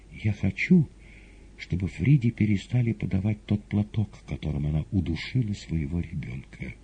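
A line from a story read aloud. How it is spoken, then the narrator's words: Sighing. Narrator (Russian): Маргарита вздохнула еще раз и сказала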